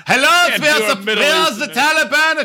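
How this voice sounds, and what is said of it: Mock German accent. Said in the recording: “They're not German. What the fuck was that accent? ... this is what we sound like”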